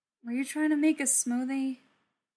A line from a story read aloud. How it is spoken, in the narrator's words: He sighed